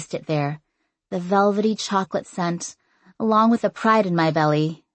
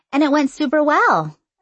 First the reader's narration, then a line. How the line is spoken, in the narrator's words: said cheerfully